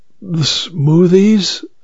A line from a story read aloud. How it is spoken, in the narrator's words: I sighed